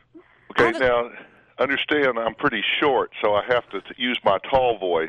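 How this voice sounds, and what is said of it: Dr. Phil impression. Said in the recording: “pretend to be him on the phone ... do a great impression ... Dang, kid, that's good ... That's real good”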